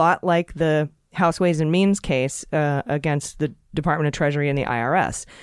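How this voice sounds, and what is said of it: Usual voice. Nothing is said of it.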